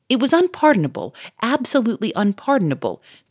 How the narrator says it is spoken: cried

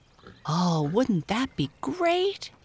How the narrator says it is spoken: exclaimed Mabel

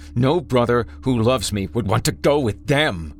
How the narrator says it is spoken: he snarled, spit flying from his slack jaw

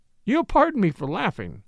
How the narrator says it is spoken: she giggled

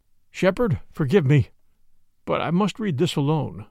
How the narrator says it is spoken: he said, unsteadily

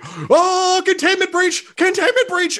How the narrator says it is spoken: running away, screaming

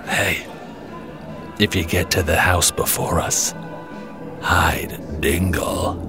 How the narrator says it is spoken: whispers in my ear

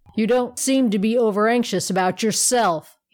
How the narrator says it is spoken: he growled

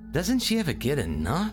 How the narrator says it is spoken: I groaned

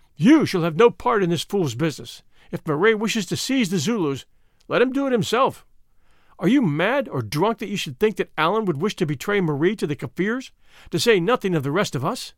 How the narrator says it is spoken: the Vrouw Prinsloo came up and caught her husband by the arm, exclaiming

